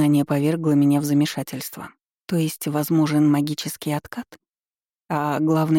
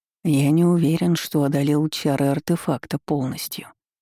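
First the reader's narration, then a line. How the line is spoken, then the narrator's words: Close hot whisper. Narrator (Russian): прошептал, обжигая дыханием мою шею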